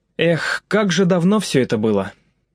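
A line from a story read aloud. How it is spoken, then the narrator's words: Involuntary sigh. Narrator (Russian): невольно вздохнул Алексей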